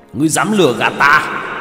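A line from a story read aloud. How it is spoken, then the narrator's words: Angry roar. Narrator (Vietnamese): Hắn nổi giận gầm lên một tiếng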